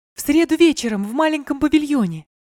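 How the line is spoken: Joyful. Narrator (Russian): сказала радостно принцесса

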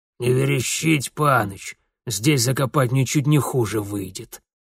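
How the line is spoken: Tense droning voice. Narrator (Russian): Прогудел напряженный, как провод к свечам Яблочкова, голос Бабайка

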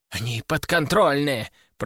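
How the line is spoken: Whisper. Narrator (Russian): прошептал Егор

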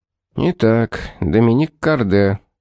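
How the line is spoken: Steady, unwavering voice. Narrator (Russian): проговорил мужчина бестрепетным голосом

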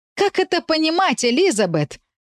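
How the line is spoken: Mother's loud squeak over phone. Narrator (Russian): пропищала мама в трубку, я едва не отодвинула телефон от уха

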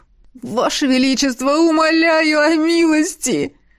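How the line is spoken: Big man's plaintive sob. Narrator (Russian): Жалобно всхлипнул светловолосый бугай, обладавший силой медведя

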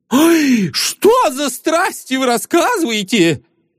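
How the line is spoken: Agitated speech. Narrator (Russian): взволнованно проговорил сочинитель

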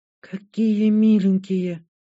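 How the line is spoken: Amazed breathless exclamation. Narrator (Russian): выдохнула Шантри, пораженно глядя

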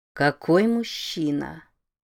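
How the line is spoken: Thoughtful, shifting tone. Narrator (Russian): задумчиво произнесла Роза Марина, и тон ее изменился

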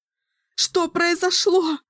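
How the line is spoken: Sobbing question. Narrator (Russian): спросила Кэлин, рыдая на плече Никки

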